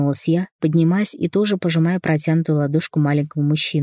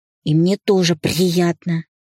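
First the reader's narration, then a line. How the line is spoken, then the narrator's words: Deliberate growl. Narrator (Russian): старательно рычал Иван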